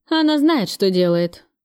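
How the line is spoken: Calm. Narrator (Russian): спокойно сказал Кравцов

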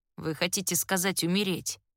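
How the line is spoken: Through gritted teeth. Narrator (Russian): сквозь зубы цедит Флинт

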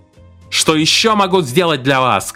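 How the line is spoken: Shouting. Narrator (Russian): кричал Гипс

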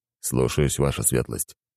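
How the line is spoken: Calm reply. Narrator (Russian): спокойно ответил Зейд

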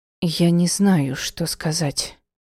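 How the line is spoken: Forced out with difficulty. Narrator (Russian): с трудом выдавила

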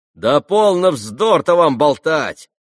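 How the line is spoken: Shouting. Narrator (Russian): закричал Ракитин

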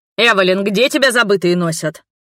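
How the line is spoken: Mock-angry bark. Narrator (Russian): Наигранно-сердито гаркнул Брук

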